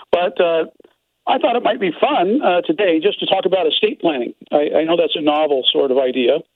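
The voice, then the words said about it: Hoarse sore-throat voice. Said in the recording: “I have a little bit of a sore throat, so forgive my voice.”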